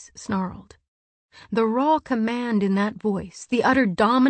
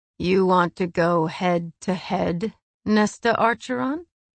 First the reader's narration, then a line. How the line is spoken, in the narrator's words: He purred